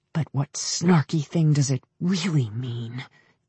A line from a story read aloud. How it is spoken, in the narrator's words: Jane hissed